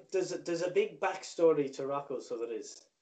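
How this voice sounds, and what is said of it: Put-on character accent. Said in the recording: “I'm breaking the accent now”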